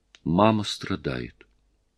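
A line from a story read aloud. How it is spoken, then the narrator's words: Quiet child's voice. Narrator (Russian): заплаканные большие голубые глаза, и его сын тихо сказал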